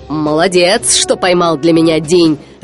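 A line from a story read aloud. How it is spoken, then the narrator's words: Laughing. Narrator (Russian): рассмеялся он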